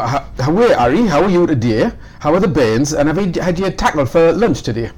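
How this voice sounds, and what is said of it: Geordie Newcastle accent. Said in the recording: “if I spoke in the local accent ... That is Geordie. Geordie. Which means somebody from Newcastle.”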